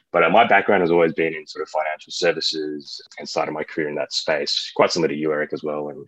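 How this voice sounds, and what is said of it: Australian accent. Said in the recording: “I'm from Australia, if sort of your listeners are listening in and wondering where that accent is from”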